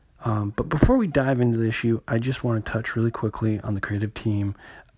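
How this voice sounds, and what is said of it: Voice sounds weird, congested. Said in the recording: “my voice sounds a little weird. I am just getting over a cold”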